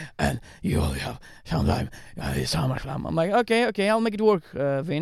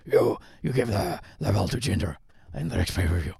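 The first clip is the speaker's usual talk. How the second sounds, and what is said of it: Impression of Vince McMahon. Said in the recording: “great Vince impression”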